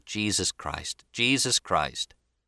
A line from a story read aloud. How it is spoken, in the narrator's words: The man sagged away, sighing